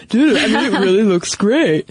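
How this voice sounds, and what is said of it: Bad impression of a guy's voice. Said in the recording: “that was a horrible impression of all men. I don't mean to imply that that's what guys sound like.”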